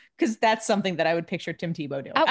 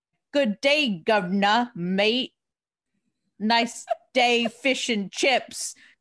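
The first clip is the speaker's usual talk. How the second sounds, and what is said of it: Terrible mock British accent. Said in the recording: “a terrible British accent”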